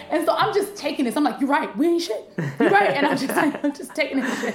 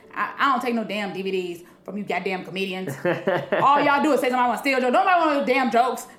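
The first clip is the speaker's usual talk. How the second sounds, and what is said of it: Imitates another person's voice. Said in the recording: “I don't know if I'm finna probably fuck up his accent completely”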